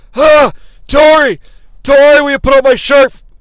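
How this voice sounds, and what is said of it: Imitates another person's voice. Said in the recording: “do a Johnny Ace impression ... John Laurinaitis impression”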